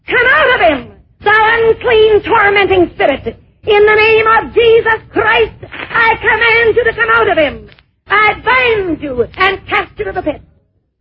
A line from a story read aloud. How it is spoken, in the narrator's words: in a loud voice began to shout